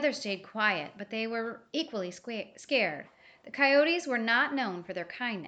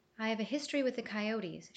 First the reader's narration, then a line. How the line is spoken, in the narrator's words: started, her voice soft and low